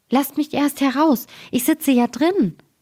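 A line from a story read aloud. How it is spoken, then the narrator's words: Frightened high-pitched call. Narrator (German): Da bekam der Daumerling Angst, dass er mit einer hellen Stimme rief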